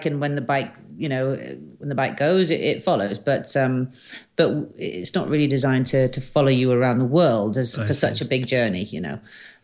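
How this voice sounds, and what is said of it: British-sounding English accent. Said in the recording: “your accent is clearly not Canadian now... You sound a little more like UK.”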